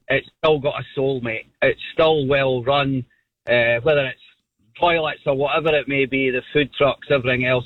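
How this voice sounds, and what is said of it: Scottish accent. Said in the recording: “I hail from Scotland. You can probably tell by my accent.”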